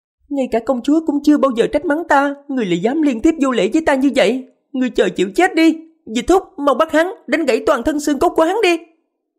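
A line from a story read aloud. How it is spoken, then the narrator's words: Shrill, offended cry. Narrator (Vietnamese): dường như rất phản cảm với người xưng hô nàng ta là hạ nhân, kêu lên giọng the thé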